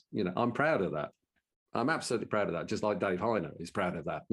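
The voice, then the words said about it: Brummie (Birmingham) English accent. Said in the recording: “I've got a Brummie accent.”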